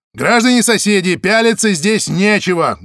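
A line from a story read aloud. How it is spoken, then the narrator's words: Loud announcement. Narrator (Russian): громко объявил Зайцев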